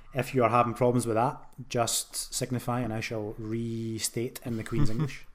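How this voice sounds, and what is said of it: Glaswegian Scottish accent. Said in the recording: “I do have a Glaswegian accent.”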